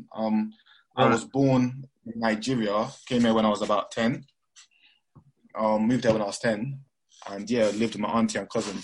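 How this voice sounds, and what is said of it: Mixed accent, sounds Midlands-like. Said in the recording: “you've got a bit of an accent. Are you from the Midlands or something?... Everyone says I've got like a Midlands accent... my accent being all over the place.”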